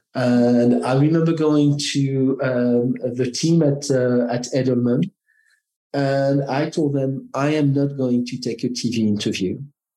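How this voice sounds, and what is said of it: French-accented English. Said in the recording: “Because I am French, I have an accent, and my Frenchness and my accent could distort the message ... a French male with an”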